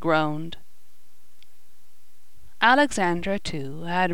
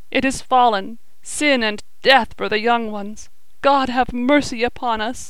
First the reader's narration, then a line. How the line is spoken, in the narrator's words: sobbed